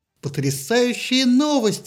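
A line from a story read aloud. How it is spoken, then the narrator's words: Exclaimed. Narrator (Russian): воскликнула Афина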